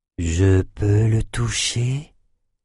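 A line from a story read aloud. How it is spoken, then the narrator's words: Very soft question. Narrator (French): demanda-t-elle d'une voix très douce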